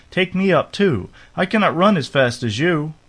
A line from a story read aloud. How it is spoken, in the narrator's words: cried the frog